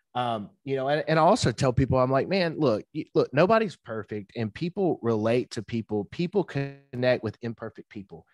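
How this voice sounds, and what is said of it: Redneck slang accent. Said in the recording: “I got a redneck slang accent. I can't pronunciate most of my words correctly ... I stutter ... I actually love your accent”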